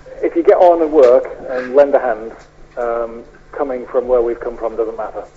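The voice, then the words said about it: County Durham English accent. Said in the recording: “I'm an invader from County Durham, actually. ... Now that's an accent.”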